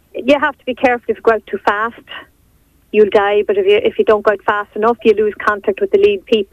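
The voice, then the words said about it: Irish Cavan accent. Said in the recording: “by the accent there, obviously, you're a Cavan woman originally”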